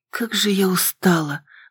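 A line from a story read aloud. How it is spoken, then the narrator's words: Exhaled, tired. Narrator (Russian): Выдохнула я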